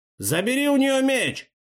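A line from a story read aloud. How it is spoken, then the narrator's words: Pirate shouting. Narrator (Russian): крикнул один из пиратов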